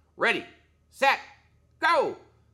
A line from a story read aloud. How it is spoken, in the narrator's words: A man with a grizzly gray beard shouted